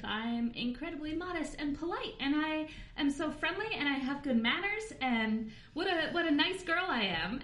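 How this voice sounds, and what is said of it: High-pitched sweet phone voice. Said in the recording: “You should hear my phone voice ... now I can hear myself dropping three octaves as I go back to talking to you”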